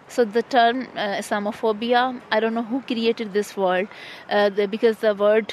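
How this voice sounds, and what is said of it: Strong non-native English accent. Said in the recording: “my hard accent”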